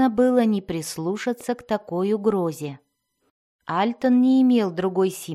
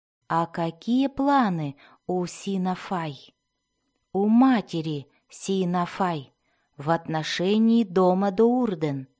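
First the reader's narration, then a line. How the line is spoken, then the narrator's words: Calm. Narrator (Russian): спокойно спросил он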